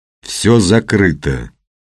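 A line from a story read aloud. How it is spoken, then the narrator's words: Objecting. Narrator (Russian): возразил мужчина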